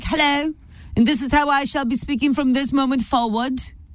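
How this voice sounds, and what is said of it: Unconvincing put-on British accent. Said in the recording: “talking with a British accent ... I wouldn't know what accent you were doing, which is cute. I'm like, what is that?”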